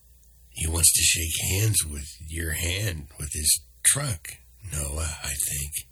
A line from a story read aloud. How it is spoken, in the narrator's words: whispered